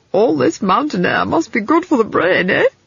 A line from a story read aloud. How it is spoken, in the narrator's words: He laughed